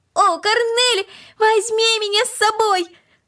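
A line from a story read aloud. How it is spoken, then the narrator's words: Increasingly loud shouting. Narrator (Russian): Макс кричал все громче и громче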